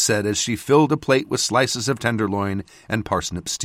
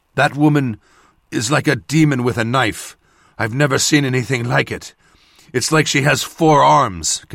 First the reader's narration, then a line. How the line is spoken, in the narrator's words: Kedal panted